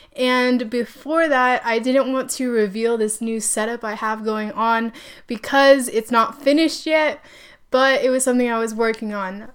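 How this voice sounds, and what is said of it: Sick-sounding voice. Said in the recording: “If you can't tell by my voice, I am super sick.”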